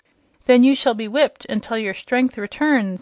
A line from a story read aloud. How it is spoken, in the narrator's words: exclaimed the queen